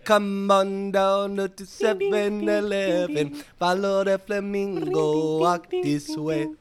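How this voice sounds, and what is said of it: Sung jingle in reggae-style accent. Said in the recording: “It was an accent. It was a reggae.”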